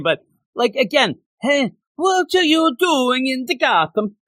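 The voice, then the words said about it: Put-on French accent. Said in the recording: “That's my French accent.”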